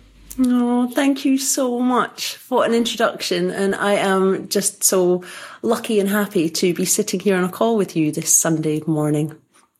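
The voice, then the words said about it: Scottish accent. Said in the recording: “I'm from Scotland, as you can tell from the accent.”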